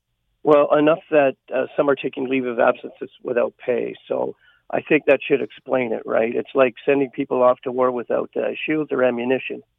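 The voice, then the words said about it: Strained, fading hoarse voice. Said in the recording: “I'm kind of losing my voice here”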